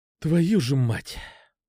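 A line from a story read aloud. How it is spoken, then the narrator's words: Breathed out. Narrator (Russian): выдохнул я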